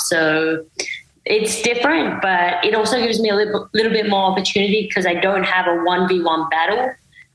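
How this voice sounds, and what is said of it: Mixed accent, partly American and Australian. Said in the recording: “your accent, it's a bit of everywhere... I think it's just a mix... I think it's a bit of Australian as well”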